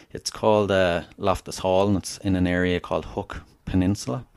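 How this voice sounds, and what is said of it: Southern Irish accent. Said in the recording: “if your listeners haven't guessed by my accent, I'm Irish. I'm from Southern Ireland, a place called Wexford”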